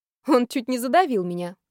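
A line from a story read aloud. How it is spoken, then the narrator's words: Snorting. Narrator (Russian): хмыкнула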